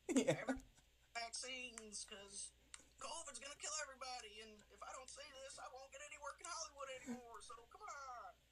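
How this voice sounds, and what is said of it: Put-on Southern American accent. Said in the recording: “It's not a very southern accent... No, but you just did one.”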